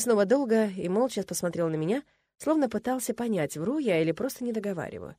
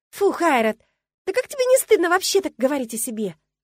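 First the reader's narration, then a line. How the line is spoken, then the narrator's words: Exclamation. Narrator (Russian): воскликнула я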